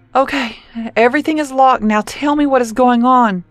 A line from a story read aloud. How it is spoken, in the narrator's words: Corey begged